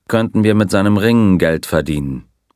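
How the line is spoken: Dry remark. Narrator (German): bemerkte der Colonel trocken

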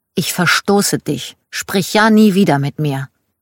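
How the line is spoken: Angry child. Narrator (German): sehr wütend, sagte

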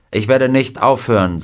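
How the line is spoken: Plain. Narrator (German): sagte er

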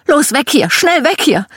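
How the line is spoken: Mother screaming. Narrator (German): Meine Mom schrie

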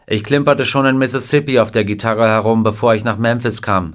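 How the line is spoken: Plain. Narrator (German): sagte er

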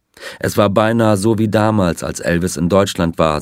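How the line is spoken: Plain. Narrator (German): sagte er

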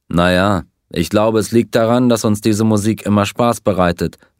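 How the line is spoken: Plain. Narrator (German): antwortete

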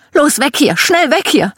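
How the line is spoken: Mother screaming. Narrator (German): Meine Mom schrie

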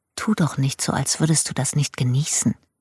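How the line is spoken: Whispered, nasty reply. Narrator (German): Ich glaube, ich erwiderte flüsternd etwas Böses

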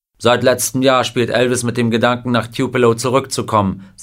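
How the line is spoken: Plain. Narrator (German): sagte Parker

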